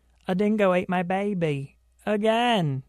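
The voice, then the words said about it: Poor attempt at an imitated accent. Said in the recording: “I can't do accents.”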